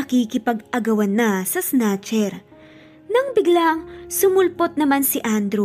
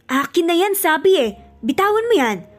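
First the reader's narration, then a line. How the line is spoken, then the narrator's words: Shouting together. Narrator (Tagalog): Sabay sigaw ng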